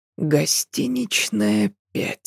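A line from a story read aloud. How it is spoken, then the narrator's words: Whispering to himself. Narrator (Russian): прошептал он себе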